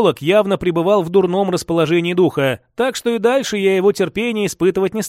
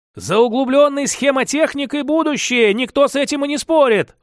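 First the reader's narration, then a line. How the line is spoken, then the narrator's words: Heated shout. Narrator (Russian): в запале выкрикнул Максим Леонидович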